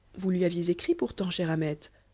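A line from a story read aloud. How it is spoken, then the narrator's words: Young woman asking. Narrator (French): demanda la jeune fille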